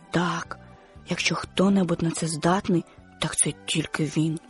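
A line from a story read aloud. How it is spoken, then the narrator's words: Whisper. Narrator (Ukrainian): шепнув Твіга слону Нембо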